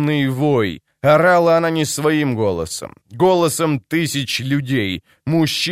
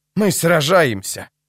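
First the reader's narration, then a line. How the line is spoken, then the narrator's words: Breathless. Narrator (Russian): выдохнула она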